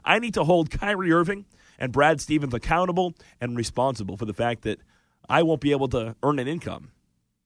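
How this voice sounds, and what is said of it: Hoarse, strained voice. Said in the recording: “can you hear my voice? My voice has been going for weeks here ... I've spent the last month screaming at the flipping TV ... now I'm losing my voice”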